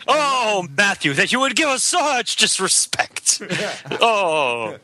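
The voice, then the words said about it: Theatrical, dramatic delivery. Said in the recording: “that's me being theatrical.”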